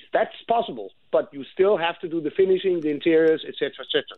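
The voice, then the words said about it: Non-American foreign accent. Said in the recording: “He's not in the United States. You might be able to tell by his accent.”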